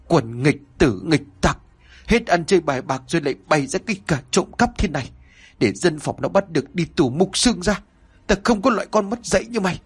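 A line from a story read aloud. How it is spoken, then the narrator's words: Furious, panting old man scolding. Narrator (Vietnamese): Ông cụ nghe con gái van xin thì dậm bước chân, tức uất lên vừa thở hổn hển vừa nói như mắng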